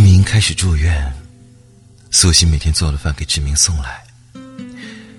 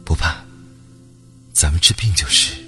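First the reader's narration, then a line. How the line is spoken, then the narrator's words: Soft gentle voice. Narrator (Chinese): 苏欣轻声说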